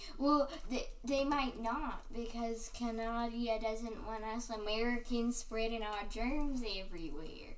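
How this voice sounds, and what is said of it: Put-on American accent. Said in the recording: “I don't know what that voice is. ... It's my American accent.”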